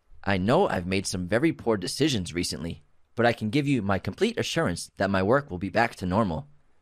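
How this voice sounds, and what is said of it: Restrained robotic computer voice. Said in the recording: “that was a pretty good robot voice... It was a good robot voice... you didn't overdo it”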